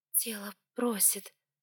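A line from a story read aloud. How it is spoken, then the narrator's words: Whispered. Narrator (Russian): прошептала в ответ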